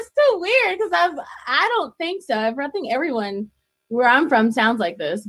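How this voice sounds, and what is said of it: Eastern North Carolina accent. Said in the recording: “she has an accent ... I'm from Greenville, North Carolina, and I was born in Rocky Mount, North Carolina”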